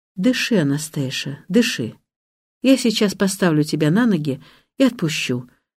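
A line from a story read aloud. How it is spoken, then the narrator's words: Quiet. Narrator (Russian): говорит он негромко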